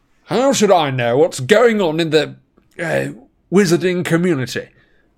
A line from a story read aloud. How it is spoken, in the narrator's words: snapped the Prime Minister now